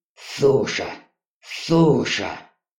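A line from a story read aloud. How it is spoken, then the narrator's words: Growl. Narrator (Russian): Рыкнув, Ури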